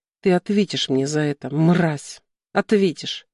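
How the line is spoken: Desperate, vengeful whisper. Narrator (Russian): прошептала не я, а моя вторая личность, отчаянная, жестокая и готовая мстить

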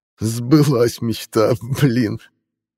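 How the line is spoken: Choppy words through laughter. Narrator (Russian): Прорывались сквозь смех отрывистые слова

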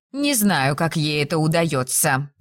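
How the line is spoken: Grumbling. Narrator (Russian): проворчала Мелисент

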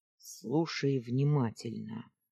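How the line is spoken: Gruff grumble from father. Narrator (Russian): буркнул отец

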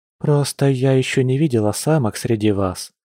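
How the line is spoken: Confessing after deep sigh. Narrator (Russian): глубоко вздохнув, призналась Лиана

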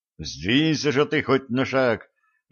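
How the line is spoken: Pleading. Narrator (Russian): взмолился Олег

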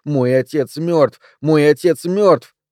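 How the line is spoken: Urgent desperate shout. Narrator (Russian): Он чувствовал, что ему нужно буквально прокричать кому-то

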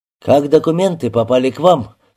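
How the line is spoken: Stern repeated question. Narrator (Russian): строго повторил вопрос Антон

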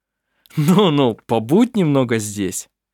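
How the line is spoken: Laughing. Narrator (Russian): засмеялся Арф

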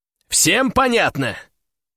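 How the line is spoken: Loud repetition. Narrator (Russian): громко повторяю я

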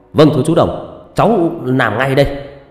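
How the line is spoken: Loud respectful shout. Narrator (Vietnamese): Quân nghiêm người hét to

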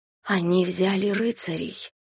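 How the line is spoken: Whisper. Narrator (Russian): прошептала я

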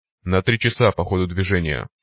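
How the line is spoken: Growl. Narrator (Russian): прорычал Копия

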